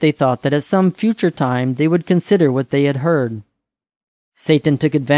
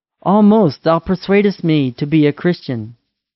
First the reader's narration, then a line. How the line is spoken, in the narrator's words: one cried out